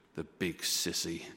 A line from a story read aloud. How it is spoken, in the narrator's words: after a long silence, a broken, shaky voice whispered